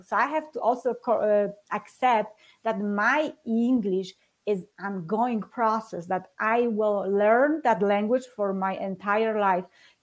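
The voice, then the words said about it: Non-native English accent. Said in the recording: “there is this little accent that I put in on different letter, and it sounds for them differently ... I will have my accent for the rest of my life. I really tried to get rid of it.”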